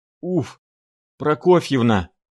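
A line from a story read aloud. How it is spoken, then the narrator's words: Hoarse, breathless. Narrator (Russian): говорил, перехватывая воздух, охрипший Шариков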